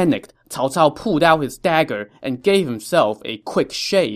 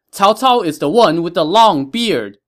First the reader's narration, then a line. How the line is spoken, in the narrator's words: he heard them shout again